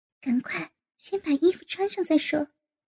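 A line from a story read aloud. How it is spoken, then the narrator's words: Hurried whisper. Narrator (Chinese): 赵颖急忙悄声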